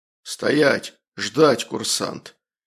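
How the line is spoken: Menacing sergeant's growl. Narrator (Russian): унтер прорычал грозно

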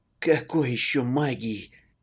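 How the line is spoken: Hoarse, annoyed, relieved. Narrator (Russian): прохрипел с досадой на него, с невиданным облегчением

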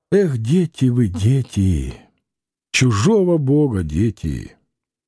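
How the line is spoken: Sighed. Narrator (Russian): вздохнула Анфимьевна

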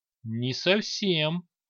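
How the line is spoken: Uncertain reply. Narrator (Russian): неуверенно ответил последний из Девир

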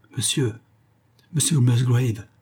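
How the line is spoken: Emotional trembling exclamation. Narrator (French): s'écria-t-il d'une voix tremblante d'émotion

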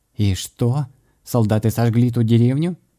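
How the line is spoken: Surprised question. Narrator (Russian): удивленным голосом спросил Майер

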